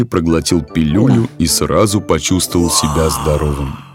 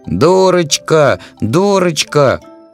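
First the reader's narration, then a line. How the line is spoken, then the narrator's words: Angry shouting. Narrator (Russian): кричал Фази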